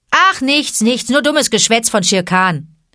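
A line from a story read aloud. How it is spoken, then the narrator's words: Calling back. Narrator (German): rief er zurück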